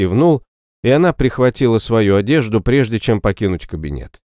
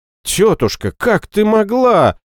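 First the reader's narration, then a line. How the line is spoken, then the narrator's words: Exclaimed. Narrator (Russian): воскликнула наследница престола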